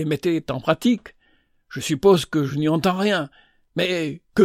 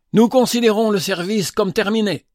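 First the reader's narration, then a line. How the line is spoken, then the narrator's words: Cried out. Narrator (French): s'écria Henry Maxwell du haut de sa chaire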